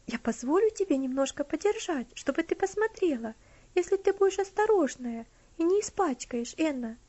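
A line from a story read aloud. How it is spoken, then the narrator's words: Gentle, kind offer. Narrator (Russian): Тем же ласковым тоном предложила Элси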